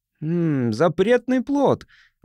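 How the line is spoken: Exclaiming. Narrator (Russian): воскликнул Хадден

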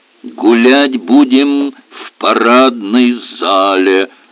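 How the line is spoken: Deep bass voice. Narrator (Russian): пробасил Аристарх Палыч

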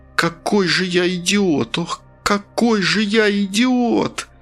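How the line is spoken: Groaning. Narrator (Russian): стонал Асад

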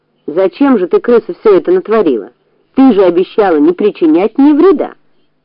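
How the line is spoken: Stern, angry question. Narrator (Russian): У хозяина тоже был очень сердитый вид, и он строго спросил старую крысу

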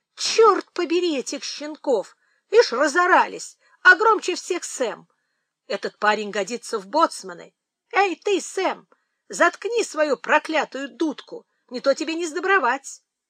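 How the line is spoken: Exclamation. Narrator (Russian): мистер Прайс воскликнул

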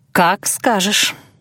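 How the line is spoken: Purring. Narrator (Russian): мурлыкнула я

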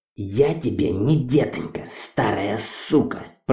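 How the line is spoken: Hissed. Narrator (Russian): Прошипела Хона

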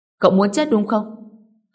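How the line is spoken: Angry. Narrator (Vietnamese): Người nọ tức giận nói

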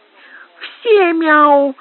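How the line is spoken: Squeaky child's voice. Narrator (Russian): пропищал с гримасой маленький Снель

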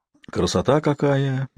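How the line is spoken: Quiet drawn-out. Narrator (Russian): негромко протянула Кайли

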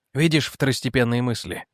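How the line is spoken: Quiet. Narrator (Russian): тихо сказал Вейерт

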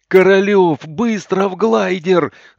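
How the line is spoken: Wild yell. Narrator (Russian): заорал я диким голосом

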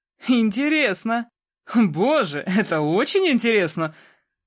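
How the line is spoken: Laughing. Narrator (Russian): Рассмеялся он

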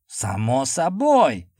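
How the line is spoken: Near bark. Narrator (Russian): почти рявкнул Гаррисон

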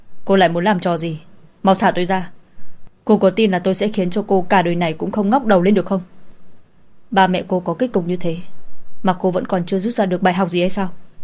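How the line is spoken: Furious, through gritted teeth. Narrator (Vietnamese): Hắn dương to đôi mắt chứa đầy tức giận nhìn cô, nghiến răng nghiến lợi nói

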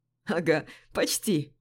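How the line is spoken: Chuckling. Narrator (Russian): хохотнул Жора

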